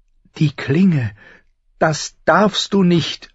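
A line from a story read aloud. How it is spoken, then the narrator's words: Pleading. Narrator (German): flehte sie ihn an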